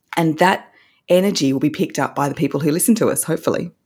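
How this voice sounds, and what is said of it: Australian accent, rising inflection. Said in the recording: “this beautiful Australian accent ... I do have an Australian accent. We have a bit of a rising inflection quirk over here where we go up at the end of every sentence.”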